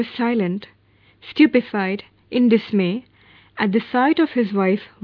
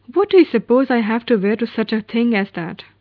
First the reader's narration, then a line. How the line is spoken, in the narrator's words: declared impatiently